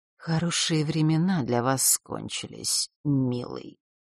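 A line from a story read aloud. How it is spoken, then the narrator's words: Icy whisper. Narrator (Russian): ледяным голосом прошептала Елена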